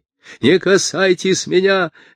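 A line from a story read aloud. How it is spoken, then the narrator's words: Shout. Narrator (Russian): закричал Абирам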